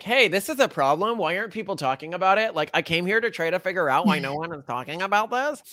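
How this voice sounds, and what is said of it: Imitates another person's voice. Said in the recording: “I do my little impression there.”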